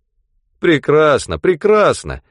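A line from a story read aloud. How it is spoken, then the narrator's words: Cheerful. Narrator (Russian): весело ответил Хигби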